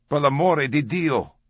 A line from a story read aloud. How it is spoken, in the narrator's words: a familiar woman's voice shouted